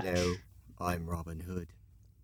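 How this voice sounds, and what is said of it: Put-on English accent. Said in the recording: “That was a better English accent. ... That was a better British accent.”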